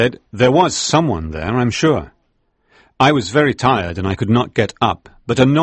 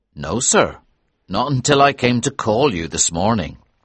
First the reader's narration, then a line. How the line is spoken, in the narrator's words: he said